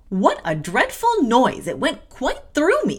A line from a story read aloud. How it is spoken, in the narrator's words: exclaimed Miss Abbott